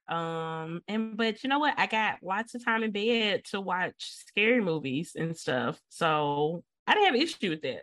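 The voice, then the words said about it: Voice still sick from cold. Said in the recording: “I had a really bad cold and sore throat... I'm not 100%, as y'all can probably hear by my voice”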